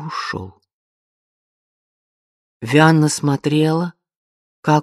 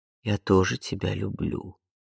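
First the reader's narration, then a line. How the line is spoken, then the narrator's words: Barely audible, quiet. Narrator (Russian): Тихо, едва слышно проговорил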